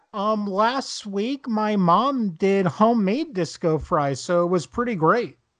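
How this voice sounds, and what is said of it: New Jersey accent. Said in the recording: “Do I detect a Jersey accent over there?”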